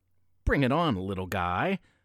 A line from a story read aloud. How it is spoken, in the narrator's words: the elf napper sneered